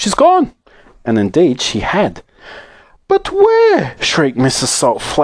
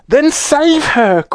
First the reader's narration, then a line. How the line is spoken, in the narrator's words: cried Mrs